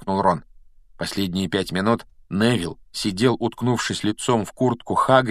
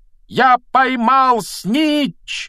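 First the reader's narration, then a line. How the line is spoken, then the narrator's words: Loud triumphant shout. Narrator (Russian): громко закричал он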